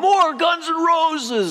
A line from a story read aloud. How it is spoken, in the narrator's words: A voice yells from the crowd